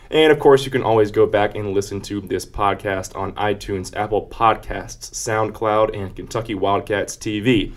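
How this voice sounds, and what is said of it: Breathless after rapid reading. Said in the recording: “I'm out of breath.”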